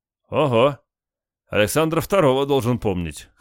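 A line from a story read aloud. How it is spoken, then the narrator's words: Chuckling. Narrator (Russian): хохотнул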